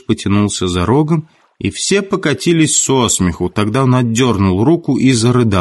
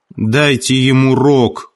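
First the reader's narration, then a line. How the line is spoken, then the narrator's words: Shouted. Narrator (Russian): крикнул Хрюша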